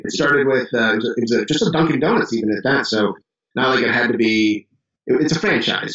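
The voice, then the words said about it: Chicago accent, dropped A's. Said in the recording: “I don't talk like Southerners. I don't have the right accent, which is super obvious down here. I dropped my A's ... the woman noticed my accent”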